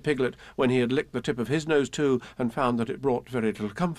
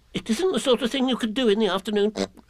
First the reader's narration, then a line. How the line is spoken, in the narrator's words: said Piglet quickly